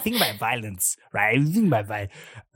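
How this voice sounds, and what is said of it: Imitates another person's voice. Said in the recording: “that's my Tarantino impression.”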